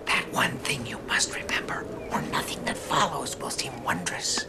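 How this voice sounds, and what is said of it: Whispering. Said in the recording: “Why are you whispering? ... It's for dramatic emphasis.”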